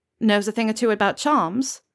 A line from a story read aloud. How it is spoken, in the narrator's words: Acacia snorts